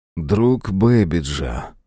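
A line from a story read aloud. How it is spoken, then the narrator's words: Thoughtful voice. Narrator (Russian): задумчиво проговорил Мэлори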